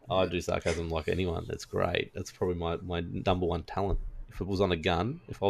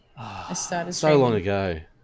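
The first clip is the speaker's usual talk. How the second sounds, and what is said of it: Sarcastic tone. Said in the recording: “that's what I'm being sarcastic. ... You do sarcasm.”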